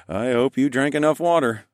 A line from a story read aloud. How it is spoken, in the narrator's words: I chuckled